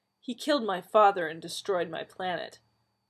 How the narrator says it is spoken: Nissa said sharply

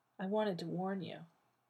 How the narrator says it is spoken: John said softly into his ear

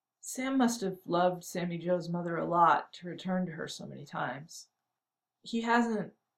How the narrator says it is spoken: When she could speak, she said miserably

